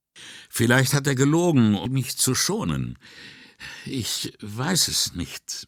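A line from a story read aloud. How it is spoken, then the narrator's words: Hesitant. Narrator (German): meinte zögernd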